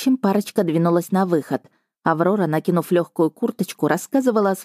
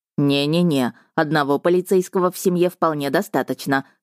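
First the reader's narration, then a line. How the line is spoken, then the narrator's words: Brother's amused snort. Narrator (Russian): хмыкнул брат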